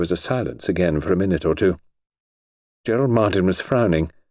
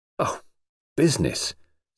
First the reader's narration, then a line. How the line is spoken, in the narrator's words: said Alex scornfully